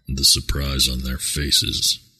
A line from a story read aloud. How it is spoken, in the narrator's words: Tawas murmured to himself and smiled